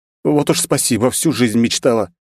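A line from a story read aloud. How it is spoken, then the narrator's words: Snapped retort. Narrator (Russian): огрызнулась я в ответ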